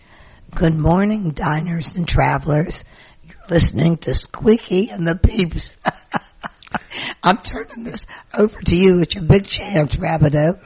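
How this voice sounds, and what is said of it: Hoarse, weak voice. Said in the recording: “I have laryngitis.”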